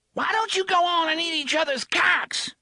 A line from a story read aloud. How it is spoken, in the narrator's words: the struggling thing in the chair screeched